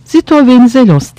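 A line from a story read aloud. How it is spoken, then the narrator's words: Shouted under orders. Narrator (Turkish): diye bağırtan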